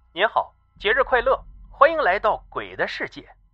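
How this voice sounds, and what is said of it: Cold, icy female voice. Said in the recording (Chinese): “她仍然用一种冰冷的声音说道”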